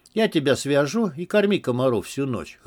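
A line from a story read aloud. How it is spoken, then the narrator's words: Chuckling. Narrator (Russian): хохотнул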